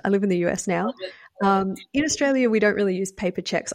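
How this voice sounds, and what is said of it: Australian accent. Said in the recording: “I grew up in Australia, which is why I have an accent.”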